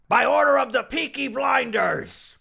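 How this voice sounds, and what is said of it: Pirate-like Peaky Blinders accent. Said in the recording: “what do they kind of sound like? ... That was just like a pirate. ... That's what they sound like, pirates. I'm doing what they do on the show.”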